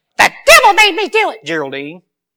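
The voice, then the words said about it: Imitates another person's voice. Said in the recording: “going to do a Flip Wilson impression.”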